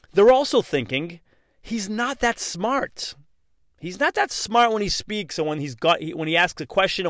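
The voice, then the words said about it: Boston accent. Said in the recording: “I do have a Bostonian, if you will, accent”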